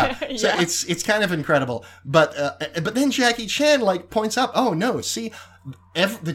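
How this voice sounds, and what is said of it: Usual voice. Nothing is said of it.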